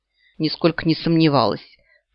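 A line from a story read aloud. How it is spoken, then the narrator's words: Grumbling. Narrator (Russian): пробурчала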